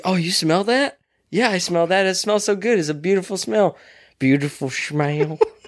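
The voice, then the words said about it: Put-on country accent. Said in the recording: “He's saying it in a country accent.”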